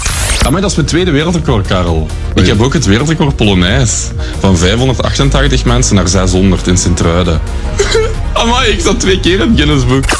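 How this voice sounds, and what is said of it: Limburg Flemish accent. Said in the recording (Dutch): “het Limburgse accent”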